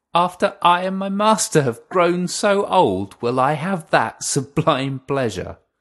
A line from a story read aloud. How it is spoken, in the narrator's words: she laughed to herself